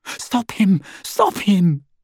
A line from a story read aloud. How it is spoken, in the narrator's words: Hermione cried